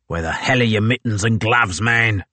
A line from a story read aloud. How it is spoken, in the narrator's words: snapped Blanky